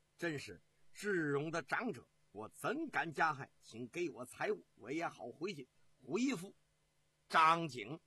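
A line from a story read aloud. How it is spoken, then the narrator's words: Hearty laughter. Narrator (Chinese): 哈哈大笑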